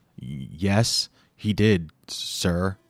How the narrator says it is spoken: stuttered

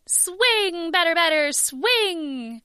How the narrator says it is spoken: Excitedly, I said

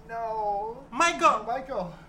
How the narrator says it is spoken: Lori cries out

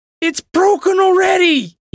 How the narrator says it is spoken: he cried

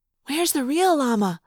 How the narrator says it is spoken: Cassie whispered

